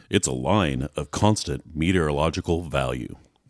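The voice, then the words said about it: Mock radio announcer voice. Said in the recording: “My best radio voice?”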